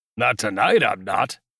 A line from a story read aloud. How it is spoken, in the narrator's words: he growled